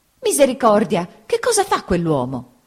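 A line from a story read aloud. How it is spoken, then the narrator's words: Exclaiming. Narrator (Italian): esclamò mia zia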